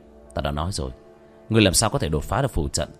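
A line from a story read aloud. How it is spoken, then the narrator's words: Muttering. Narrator (Vietnamese): Vương Quân Diệt lẩm bẩm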